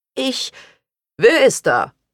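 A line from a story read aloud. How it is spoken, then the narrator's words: Called from inside. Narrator (German): rief Junker Ottmar Frost von drinnen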